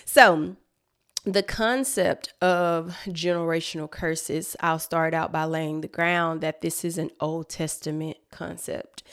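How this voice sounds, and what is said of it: Out of breath, breathless speech. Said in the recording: “I'm out of breath, y'all, because I've been moving a lot around”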